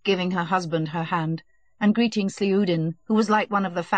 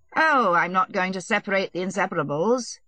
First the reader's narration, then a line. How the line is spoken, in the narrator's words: he said in his usual bantering tone